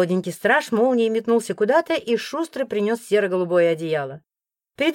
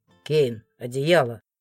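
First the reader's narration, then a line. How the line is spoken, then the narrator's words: Growled command. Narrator (Russian): рыкнул Морган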